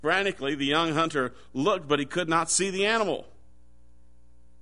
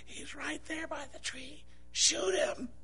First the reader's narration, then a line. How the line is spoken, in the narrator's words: The guide, frustrated, pointed and whispered